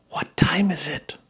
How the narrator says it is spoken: whispered Wilbur to the goose

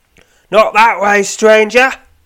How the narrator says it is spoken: shouts the man

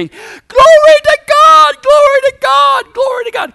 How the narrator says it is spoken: The whole row of people starts screaming

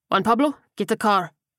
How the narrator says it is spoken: Tiago barked

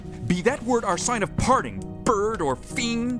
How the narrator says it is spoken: I shrieked, upstarting

